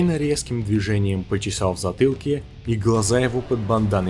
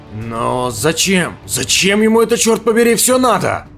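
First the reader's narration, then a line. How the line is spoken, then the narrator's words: Shouting. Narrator (Russian): выкрикнул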